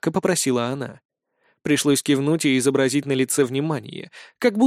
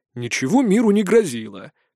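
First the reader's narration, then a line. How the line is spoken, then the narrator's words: Grumbling. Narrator (Russian): проворчал Айрат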